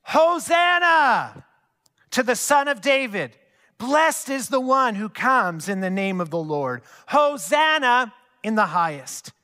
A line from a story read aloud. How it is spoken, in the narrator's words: The crowds kept shouting